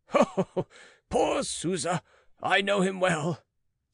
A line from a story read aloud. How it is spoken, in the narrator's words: said he, laughing